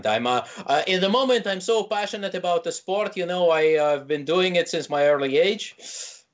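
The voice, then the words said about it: Put-on Quebec French accent. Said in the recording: “I gotta put on my Quebec accent.”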